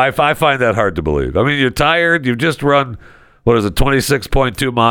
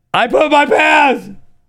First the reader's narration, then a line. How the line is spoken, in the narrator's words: she yelled to her friends